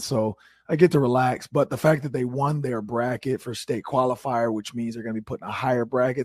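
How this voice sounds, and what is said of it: Hoarse, strained voice. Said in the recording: “Lost my voice again ... my voice is yet again hoarse, because I was screaming”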